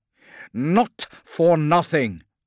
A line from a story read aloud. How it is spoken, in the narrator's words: said Demetrius angrily